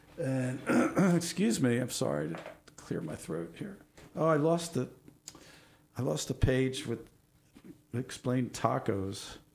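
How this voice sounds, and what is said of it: Strained, failing voice. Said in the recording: “I'm losing my voice,”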